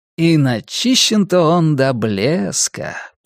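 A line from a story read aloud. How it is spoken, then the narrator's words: Drawl. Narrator (Russian): протянул Кориолан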